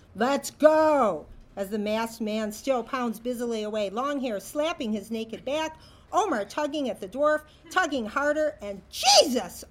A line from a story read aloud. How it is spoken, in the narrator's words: Omer shout